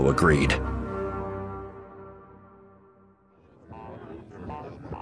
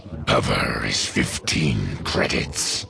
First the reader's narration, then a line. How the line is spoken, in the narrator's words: growled